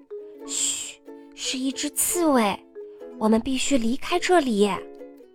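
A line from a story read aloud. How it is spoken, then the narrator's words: Whispered. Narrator (Chinese): 低声说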